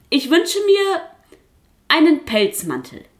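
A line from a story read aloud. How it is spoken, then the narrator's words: Goose calling out. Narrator (German): rief die Gans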